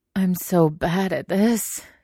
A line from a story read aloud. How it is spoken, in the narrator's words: he moaned